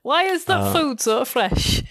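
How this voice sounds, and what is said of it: Convincing put-on regional accent. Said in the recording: “You're really good at that accent”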